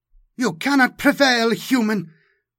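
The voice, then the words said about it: Taut, high, self-righteous female voice. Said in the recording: “Her voice was taut, high, but utterly sure of its righteousness.”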